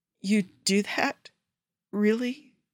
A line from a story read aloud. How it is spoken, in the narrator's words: Joe asks, his voice breaking halfway through